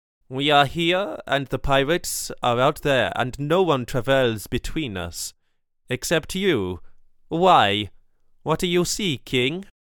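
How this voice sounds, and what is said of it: Accent with oddly stressed syllables. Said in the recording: “his accent made him stress his syllables in all the wrong places.”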